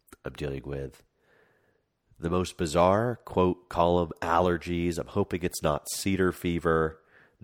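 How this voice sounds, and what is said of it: Very congested, nasal voice. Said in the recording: “if I have a cold or if my voice just changed ... I am extremely congested”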